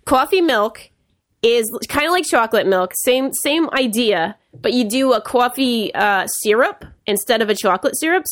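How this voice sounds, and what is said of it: Speaker's own regional accent. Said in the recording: “I'll tell you about it in my accent so you know it's for real.”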